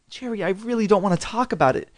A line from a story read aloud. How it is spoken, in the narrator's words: said softly